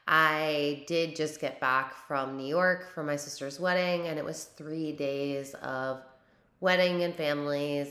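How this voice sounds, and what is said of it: Strained, fading voice. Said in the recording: “I am somewhat losing my voice. You're going to be able to tell in this episode.”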